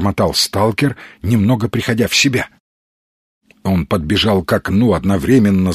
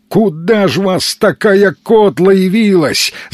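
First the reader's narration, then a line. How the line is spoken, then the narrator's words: Yelling. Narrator (Russian): заорал Сергей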